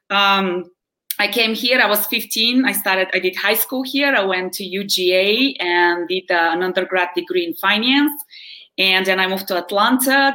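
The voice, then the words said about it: Bulgarian-accented English. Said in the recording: “I don't sound American. I don't sound Southern. ... I know my accent always gives me away ... I'm actually from Bulgaria, which is in Eastern Europe ... my accent has stuck with me”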